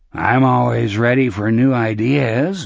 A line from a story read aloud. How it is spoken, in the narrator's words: Morgan said, and his voice was smoky again